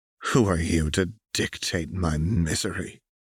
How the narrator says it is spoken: Renata hissed

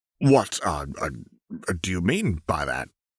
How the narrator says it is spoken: he stammered out

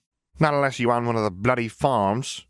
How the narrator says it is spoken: he added with a grumble

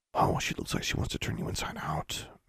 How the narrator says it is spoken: Magnificent whispered to Awesome

